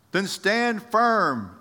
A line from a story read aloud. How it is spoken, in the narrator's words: yelled the shepherd